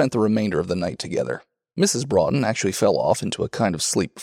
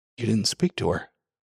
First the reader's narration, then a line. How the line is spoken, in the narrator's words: He said in a colorless voice, half as a question, half as a reproach